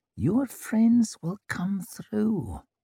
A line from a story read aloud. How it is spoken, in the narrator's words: She dropped her voice even further, murmuring through tight lips